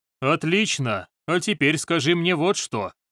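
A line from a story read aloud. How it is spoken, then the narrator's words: Indifferent voice. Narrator (Russian): сказал Ли Цинхоу равнодушным голосом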